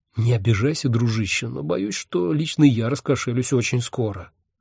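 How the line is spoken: Whisper. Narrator (Russian): шепнул я Хехельфу

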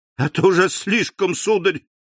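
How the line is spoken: Breathless exclamation. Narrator (Russian): воскликнула, задыхаясь, Эрмина

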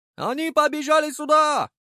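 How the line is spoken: Shouting. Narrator (Russian): закричал Гурген

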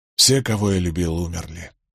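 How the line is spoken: Sighing. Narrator (Russian): вздохнул он

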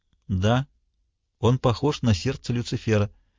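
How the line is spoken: Quiet. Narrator (Russian): тихо сказал гемолог

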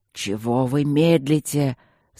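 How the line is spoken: Furious growl. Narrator (Russian): зарычал он взбешенно

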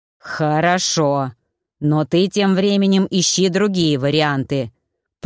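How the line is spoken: Growled. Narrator (Russian): прорычал Маффин

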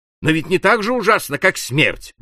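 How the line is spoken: Exclamation. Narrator (Russian): воскликнул Кент

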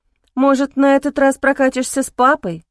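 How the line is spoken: Uncertain. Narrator (Russian): неуверенно произнесла я

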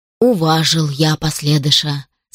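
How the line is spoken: Plain. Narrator (Russian): сказал бурмистр

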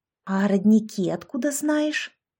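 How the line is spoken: Whisper. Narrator (Russian): шепнула Яшка

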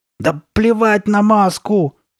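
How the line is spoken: Angry shout. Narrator (Russian): сердито закричала Карли Бет

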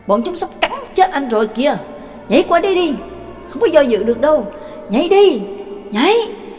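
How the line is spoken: Loud shout. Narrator (Vietnamese): Trác Mộc Cường Ba hét lớn

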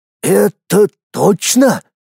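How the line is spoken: Suddenly hoarse, frightened question. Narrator (Russian): словно от испуга, внезапно охрипшим голосом спросил архимаг

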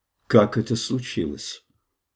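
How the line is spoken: Extremely calm question. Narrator (Russian): вопроса, заданного леди Таней, чрезвычайно спокойным голосом

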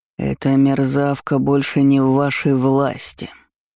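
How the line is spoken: Growled. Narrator (Russian): рыкнул барон Жирьен

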